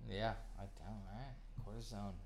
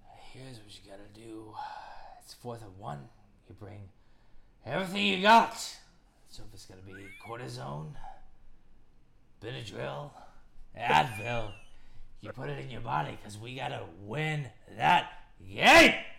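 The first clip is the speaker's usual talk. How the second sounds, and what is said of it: Al Pacino impression. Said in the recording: “your Al Pacino impression”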